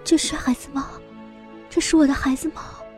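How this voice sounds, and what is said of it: Trembling, quiet voice. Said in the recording (Chinese): “用颤抖的声音小声的说道”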